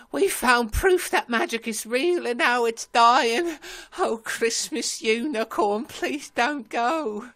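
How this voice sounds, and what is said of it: English accent, crying. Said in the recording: “Finn, English accent, crying.”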